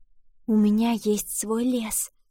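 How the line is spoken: Whisper. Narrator (Russian): прошептала она

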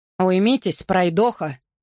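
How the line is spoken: Growled. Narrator (Russian): прорычал тот

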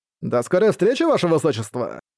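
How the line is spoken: Giggle. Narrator (Russian): Хихикнул Стил

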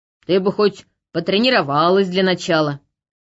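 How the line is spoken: Snorting remark. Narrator (Russian): хмыкнул лорд Элохар

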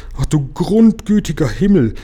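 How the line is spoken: Shocked exclamation. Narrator (German): rief Frau Waas, denn sie begriff erst jetzt, was das Ganze bedeutete

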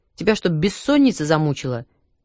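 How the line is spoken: Angry question. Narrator (Russian): сердито спросил агроном

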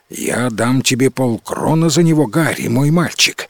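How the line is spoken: Quick. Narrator (Russian): сказал быстро

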